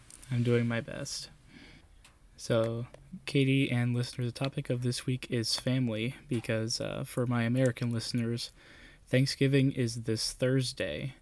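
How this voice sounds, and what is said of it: Sick-sounding voice. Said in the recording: “I'm a little bit sick this week, so if my voice sounds different, you know why.”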